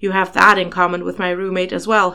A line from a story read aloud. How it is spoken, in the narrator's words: Harry said, chuckling